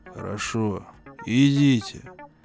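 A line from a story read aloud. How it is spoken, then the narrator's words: Gloomy reluctant agreement. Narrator (Russian): мрачно согласился Уордман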